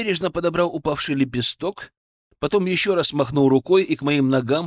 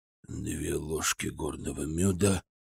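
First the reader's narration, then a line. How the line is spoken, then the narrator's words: Muttered under breath. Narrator (Russian): пробурчал себе под нос хранитель незримой библиотеки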